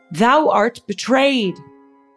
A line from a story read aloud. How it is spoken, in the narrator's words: shouting up at the royal procession